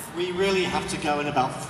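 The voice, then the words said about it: Fake British accent. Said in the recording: “He's got a very sweet fake British accent too.”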